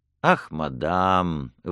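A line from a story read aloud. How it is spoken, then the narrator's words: Sad smiling objection. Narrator (Russian): возразил печально улыбаясь принц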